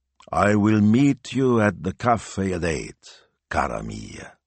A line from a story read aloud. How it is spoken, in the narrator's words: he drawled